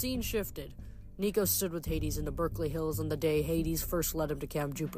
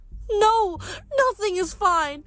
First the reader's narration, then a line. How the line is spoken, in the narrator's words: Melly wailed